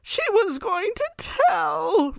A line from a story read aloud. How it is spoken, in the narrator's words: Roger whimpered